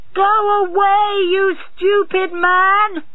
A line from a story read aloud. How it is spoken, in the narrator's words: He shouted